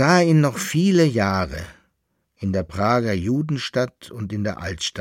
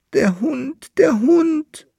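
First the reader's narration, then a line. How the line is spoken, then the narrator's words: Wailing. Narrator (German): jammerte der Bärlandfahrer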